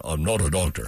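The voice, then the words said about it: Deep baritone impression of another person. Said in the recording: “He's got a deep voice. ... do the VJ impression because he's got another baritone that just goes for days. ... Did VJ have that voice? Oh, you got that. That's great.”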